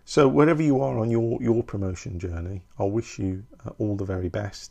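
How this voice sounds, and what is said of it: Brummie (Birmingham) accent. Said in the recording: “my dulcet, brummy tones ... it is the best accent.”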